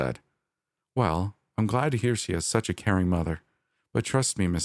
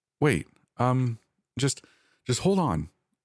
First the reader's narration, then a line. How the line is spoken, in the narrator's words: I stammered